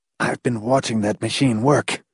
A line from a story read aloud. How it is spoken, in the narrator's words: he whispered harshly